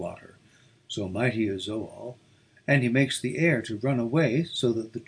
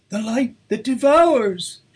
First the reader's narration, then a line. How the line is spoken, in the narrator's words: cried